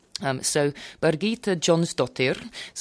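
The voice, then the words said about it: Put-on Icelandic accent. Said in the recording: “it's my best Icelandic accent.”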